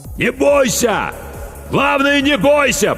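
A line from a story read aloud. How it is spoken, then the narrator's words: Shout drowned in noise. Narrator (Russian): прокричал капитан, но его слова потонули в шуме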